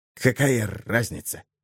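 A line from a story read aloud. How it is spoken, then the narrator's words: Whisper. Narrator (Russian): шепнул Хек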